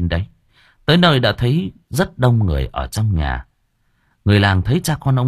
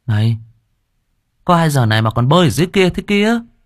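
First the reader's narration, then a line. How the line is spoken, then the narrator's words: Sudden exclamation. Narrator (Vietnamese): Đột nhiên có người kêu thốt lên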